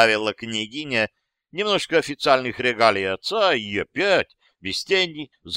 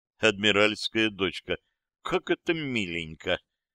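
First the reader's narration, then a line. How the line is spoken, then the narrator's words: Muttered. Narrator (Russian): пробормотал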